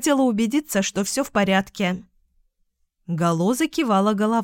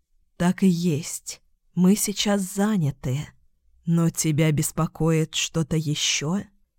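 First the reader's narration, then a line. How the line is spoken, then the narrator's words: Sighing. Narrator (Russian): Луна вздохнула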